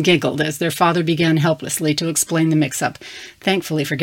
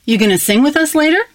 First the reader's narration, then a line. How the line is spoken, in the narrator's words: Erin asked excitedly